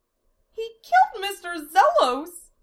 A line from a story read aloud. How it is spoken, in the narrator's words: Amelia cried out